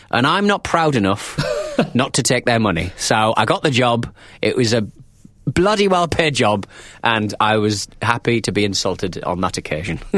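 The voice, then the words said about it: Friendly northern English accent. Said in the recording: “a stupid-sounding accent ... the northern accent that makes it sound so friendly ... And soothing and trustworthy”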